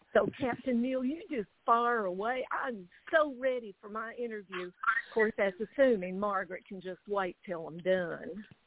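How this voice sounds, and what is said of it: Kentucky Southern accent. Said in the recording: “born and raised in a little town called Hazard. Yep, that's right, Hazard, Kentucky ... took a fancy to my accent”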